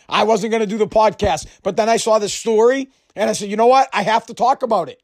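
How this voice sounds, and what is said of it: Sore, strained throat voice. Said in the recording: “I have a sore throat. My throat's a little bit messed up.”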